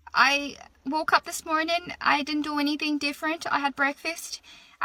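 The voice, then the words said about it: Irish accent. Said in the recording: “speaking in an Irish accent”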